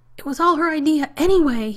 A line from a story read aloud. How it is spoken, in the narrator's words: he yelled